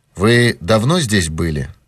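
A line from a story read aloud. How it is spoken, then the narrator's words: Plain. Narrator (Russian): спросил он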